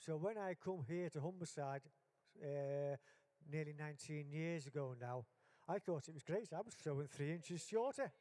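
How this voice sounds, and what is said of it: Liverpool accent. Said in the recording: “as you can hear from my accent, I'm from Liverpool.”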